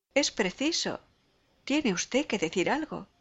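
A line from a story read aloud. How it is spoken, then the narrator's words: Group exclaiming together. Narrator (Spanish): exclaman todos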